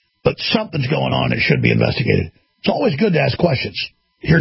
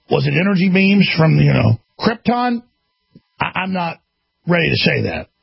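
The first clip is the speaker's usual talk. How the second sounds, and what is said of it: Sarcastic tone. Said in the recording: “I'm being sarcastic.”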